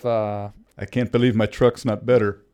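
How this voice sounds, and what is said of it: Forced imitation of someone's accent. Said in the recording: “do his accent ... That was kind of forced”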